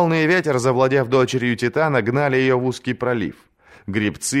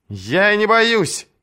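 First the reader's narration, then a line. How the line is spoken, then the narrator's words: Shouting back. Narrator (Russian): прокричала она в ответ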